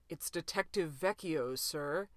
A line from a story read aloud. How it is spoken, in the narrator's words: cleared his throat, before adding in an undertone pregnant with meaning